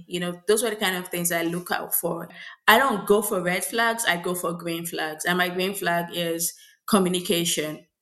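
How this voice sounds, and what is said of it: Nigerian accent. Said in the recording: “oh, I hear an accent, where are you from? And I was like, oh, I'm Nigerian ... there's a distinction of my accent here”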